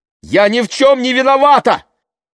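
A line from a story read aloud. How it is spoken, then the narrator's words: Shout. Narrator (Russian): выкрикнула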